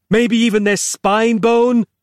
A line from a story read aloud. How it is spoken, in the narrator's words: he yelled